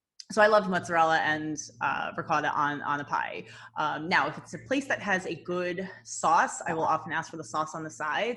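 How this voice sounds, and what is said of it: New Jersey accent. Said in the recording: “I'm from Jersey ... You can hear my horrible. ... has had an accent coming out right now.”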